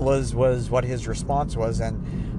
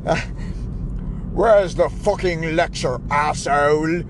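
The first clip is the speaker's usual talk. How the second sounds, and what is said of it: Impression of an angry man. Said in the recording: “I'm going to try to do an impression here”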